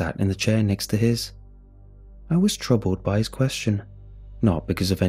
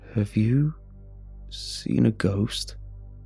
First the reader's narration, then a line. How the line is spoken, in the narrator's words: asked in a quiet voice